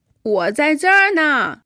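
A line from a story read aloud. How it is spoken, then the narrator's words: Voice from above. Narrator (Chinese): 回答的声音好像从天而降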